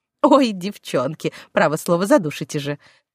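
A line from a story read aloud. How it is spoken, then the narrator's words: Laughing protest. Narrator (Russian): Смеясь, отбивалась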